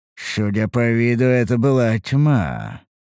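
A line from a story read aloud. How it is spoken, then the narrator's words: Thoughtful drawl. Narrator (Russian): протянул я задумчиво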